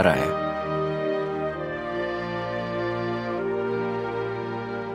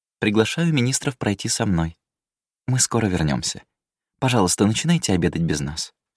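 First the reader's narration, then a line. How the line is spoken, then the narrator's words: Calm announcement. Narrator (Russian): спокойно объявила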